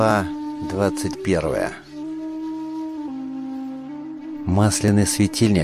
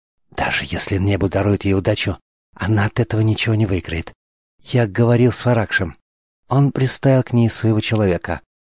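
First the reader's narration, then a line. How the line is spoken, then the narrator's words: Languid boastful whisper. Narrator (Russian): томно шепнул ей на ухо Спитам, выдавая это за личную победу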